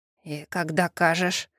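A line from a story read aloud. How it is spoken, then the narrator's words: Hoarse, strained. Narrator (Russian): хрипло выдавил он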